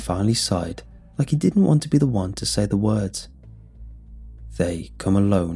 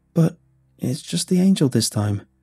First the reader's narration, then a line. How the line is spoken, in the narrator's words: Hunter said, his voice shaking